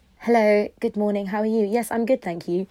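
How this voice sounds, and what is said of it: Put-on posh polite phone voice. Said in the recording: “you go into this posh voice ... We do that little voice that goes”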